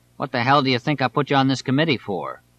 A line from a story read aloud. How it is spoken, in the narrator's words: Vincent replied curtly